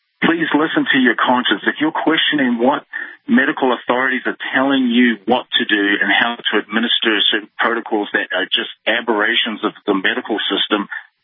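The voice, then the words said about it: New Zealand accent. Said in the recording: “did you move from New Zealand or Australia ... New Zealand ... I can hear your accent.”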